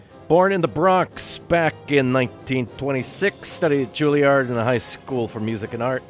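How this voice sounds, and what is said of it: Brooklyn accent. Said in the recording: “my Brooklyn accent starts kicking back in again without me realizing it”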